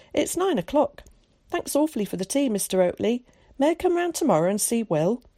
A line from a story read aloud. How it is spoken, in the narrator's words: he exclaimed